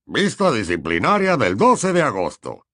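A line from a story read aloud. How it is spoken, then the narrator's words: Sonorous voice. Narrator (Spanish): comenzó Fudge con voz sonora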